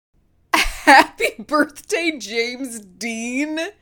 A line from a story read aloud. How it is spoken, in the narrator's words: howled